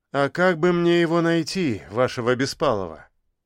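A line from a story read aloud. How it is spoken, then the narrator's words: Sighing. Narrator (Russian): Она вздохнула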